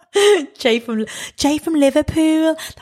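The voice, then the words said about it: Put-on Scouse accent. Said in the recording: “That's my Scouse accent.”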